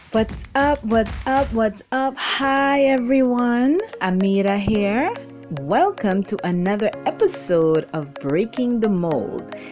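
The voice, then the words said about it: Excited, energetic voice. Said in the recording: “you can hear in my voice already that I'm more excited than the first one”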